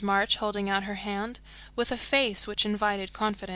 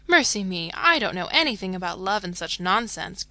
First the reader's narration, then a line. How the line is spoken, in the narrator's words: cried Jo, with a funny mixture of interest and contempt